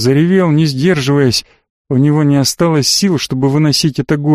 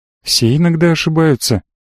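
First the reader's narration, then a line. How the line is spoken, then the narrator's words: Confident and soft. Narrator (Russian): она говорила уверенно и мягко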